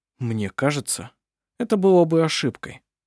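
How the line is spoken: Calm objection. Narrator (Russian): спокойно возразил Хейке

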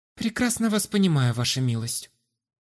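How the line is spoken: Very calm. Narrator (Russian): предельно спокойно ответила Астра

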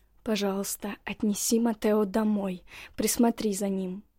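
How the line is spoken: Pleading whisper. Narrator (Russian): я успела лишь умоляюще шепнуть Адоре

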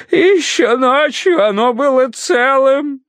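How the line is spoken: Muffled sobbing. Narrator (Russian): всхлипывал он в грязный от сажи платок

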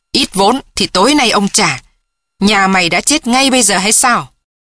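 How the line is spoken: Shout. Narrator (Vietnamese): Hắn quát lên

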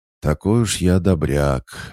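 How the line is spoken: Sighing reply. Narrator (Russian): вздохнув, ответил я

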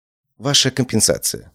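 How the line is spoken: Said quietly. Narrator (Russian): сказала она тихо

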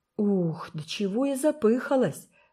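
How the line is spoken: Exclamation. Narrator (Russian): воскликнула

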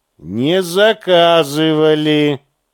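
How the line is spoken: Dry explanation. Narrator (Russian): сухо пояснил

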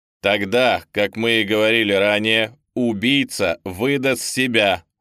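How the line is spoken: Plain. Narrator (Russian): сказал Квадратный

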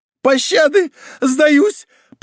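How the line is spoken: Shrill womanly squeal. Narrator (Russian): по-женски взвизгнул Волконский

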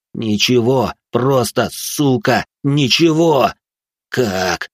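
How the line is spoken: Yelling. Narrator (Russian): орал он

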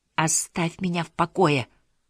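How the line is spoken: Dejected plea. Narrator (Russian): попросила Дезире упавшим голосом

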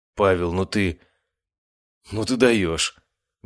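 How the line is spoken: Exclamation. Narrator (Russian): Вместо приветствия воскликнула моя медсестра Анастасия

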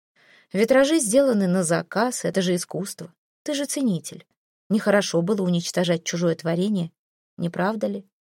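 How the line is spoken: Casual inquiring tone. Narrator (Russian): Будничным тоном поинтересовался он

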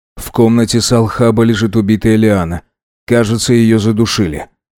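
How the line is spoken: Calm statement. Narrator (Russian): спокойно сказал Дронго

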